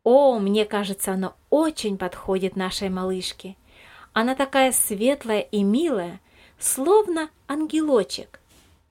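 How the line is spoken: Joyful agreement. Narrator (Russian): радостно согласилась Елизавета Михайловна

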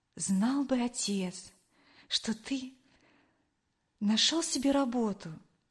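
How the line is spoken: Quiet. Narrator (Russian): тихо произнесла она

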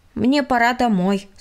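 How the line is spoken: Plain. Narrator (Russian): сказал Владик

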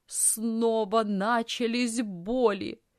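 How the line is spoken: Groan. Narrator (Russian): застонала тетя

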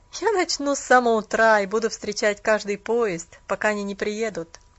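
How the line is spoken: Young man's bitter laugh. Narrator (Russian): рассмеялся молодой человек с легкой горечью

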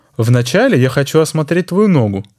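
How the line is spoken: Plain. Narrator (Russian): сказал доктор Штурсберг

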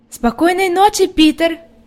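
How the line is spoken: Shout. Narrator (Russian): крикнула Хади

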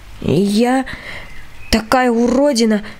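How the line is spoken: Muffled, strained voice. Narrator (Russian): выдавила я глухим голосом

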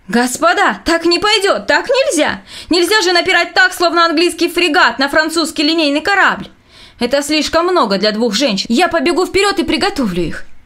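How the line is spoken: Breathless shouting. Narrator (Russian): Задыхаясь, он кричал

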